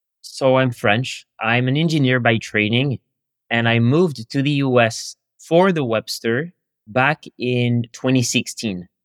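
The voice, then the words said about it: Suave Parisian French accent. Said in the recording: “famous, very suave Parisian accent.”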